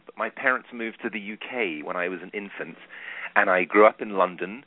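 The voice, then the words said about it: Non-American, likely British accent. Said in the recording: “I was born in New York City, which is surprising given my accent.”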